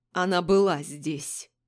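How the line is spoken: Angry, through gritted teeth. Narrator (Russian): выдал Дерек Берг сквозь зубы, злясь на себя

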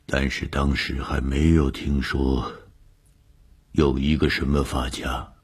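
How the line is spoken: Trembling voice. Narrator (Chinese): 何教授的声音颤抖了一下，接着说

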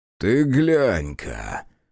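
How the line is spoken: Joyless male snort. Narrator (Russian): совсем невесело хмыкнул этот мужчина

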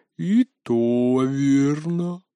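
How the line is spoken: Sighing. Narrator (Russian): вздохнула Алла

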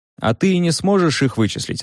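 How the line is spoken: Plain. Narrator (Russian): ответил мой адвокат

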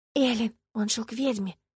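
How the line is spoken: Whisper. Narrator (Russian): шепнула Ладушка

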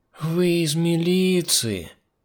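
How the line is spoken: Drawling. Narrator (Russian): Протянула Мила

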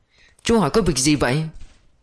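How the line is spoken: Fearful asking. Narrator (Vietnamese): Trong mắt chị lộ vẻ sợ hãi, lại hỏi Thiên Sung

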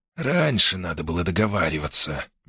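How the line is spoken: Gentle objection. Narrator (Russian): мягко возразил Альмири

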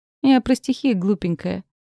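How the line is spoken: Laughing man. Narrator (Russian): рассмеялся он

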